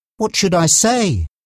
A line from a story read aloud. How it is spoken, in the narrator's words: Mark asked nervously